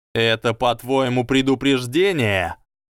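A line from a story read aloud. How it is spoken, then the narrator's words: Shouting. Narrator (Russian): Драко уже кричал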